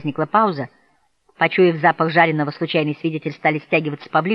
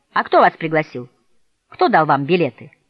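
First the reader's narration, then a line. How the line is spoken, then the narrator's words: Defiant question. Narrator (Russian): Хойт вызывающим тоном спросил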